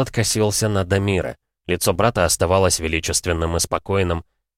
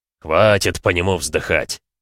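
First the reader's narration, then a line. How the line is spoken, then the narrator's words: Snorting. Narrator (Russian): хмыкнул Шторм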